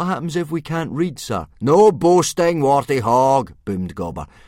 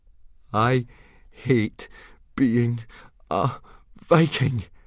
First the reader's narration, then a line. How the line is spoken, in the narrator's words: panted Fishlegs to Hiccup